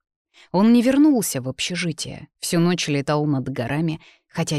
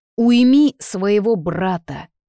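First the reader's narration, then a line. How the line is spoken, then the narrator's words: Impulsive growl. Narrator (Russian): прорычал раньше, чем успел осознать вырвавшиеся на волю слова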